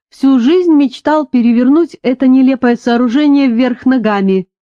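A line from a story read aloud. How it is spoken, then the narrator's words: Cheerful, laughing. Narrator (Russian): весело рассмеявшись, сказал он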